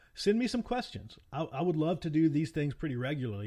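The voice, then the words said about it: Appalachian accent. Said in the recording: “my really cool Appalachian accent”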